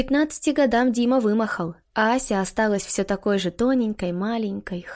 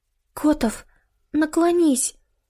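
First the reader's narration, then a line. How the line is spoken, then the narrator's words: Excited whisper. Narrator (Russian): Взволнованно прошептали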